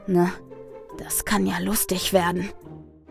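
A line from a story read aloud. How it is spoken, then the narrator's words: Whispered. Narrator (German): flüstert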